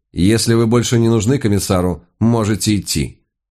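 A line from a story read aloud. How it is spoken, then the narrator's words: Dry, curt. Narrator (Russian): та сухо сказала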